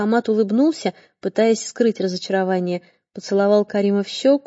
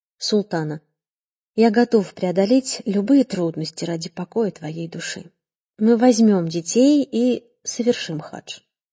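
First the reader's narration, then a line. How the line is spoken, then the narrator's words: Deep sigh, then speaking. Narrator (Russian): Он глубоко вздохнул и сказал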